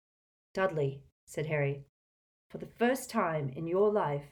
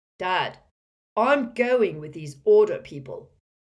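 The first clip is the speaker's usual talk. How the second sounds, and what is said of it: Loud voice. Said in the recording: “in a loud voice”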